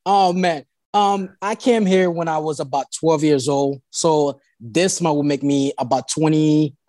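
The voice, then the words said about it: Haitian Caribbean island accent. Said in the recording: “you're Haitian by descent ... that's not a South Alabama accent. ... that's the island accent.”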